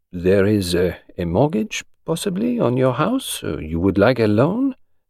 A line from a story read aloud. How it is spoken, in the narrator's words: Spence interrupted in a horrified voice